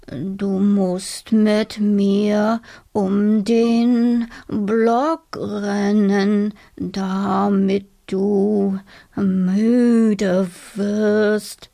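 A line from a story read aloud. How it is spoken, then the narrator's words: Slow snail voice. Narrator (German): sagte die Schnecke langsam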